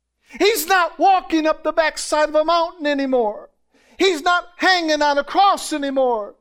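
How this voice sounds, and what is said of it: Excited yelling. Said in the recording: “I'm yelling. I just get excited.”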